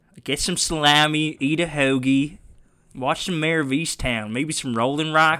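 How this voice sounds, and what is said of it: Fake Delaware County accent. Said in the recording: “I don't know what accent that is. ... A fake Delco ... accent.”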